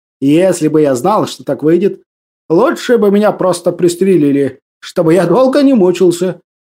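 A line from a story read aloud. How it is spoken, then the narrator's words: Sarcastic remark. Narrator (Russian): ехидно произнес Трефилов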